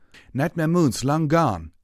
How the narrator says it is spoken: another pony shouted

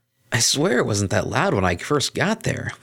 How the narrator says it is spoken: Vinyl exclaimed

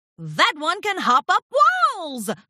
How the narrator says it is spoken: Flim shouted

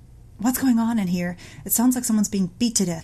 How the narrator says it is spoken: he yelled

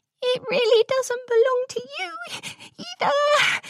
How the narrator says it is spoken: squeaked

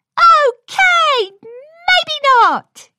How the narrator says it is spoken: shouted Pinky with the same enthusiasm

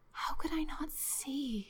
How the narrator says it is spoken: she whispered

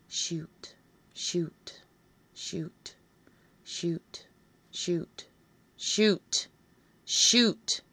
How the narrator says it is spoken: you hear me intone, slowly and sternly

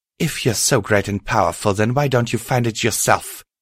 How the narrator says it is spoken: Twilight spat

